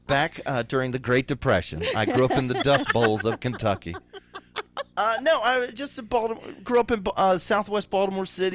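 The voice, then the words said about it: Strong thick Baltimore accent. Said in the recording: “that fucking accent ... I know it's strong. I know it's thick.”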